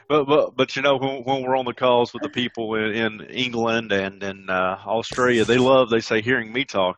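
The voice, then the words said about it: Deep Southern American accent. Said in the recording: “profiling me by my accent ... people can tell that I'm from the deep South”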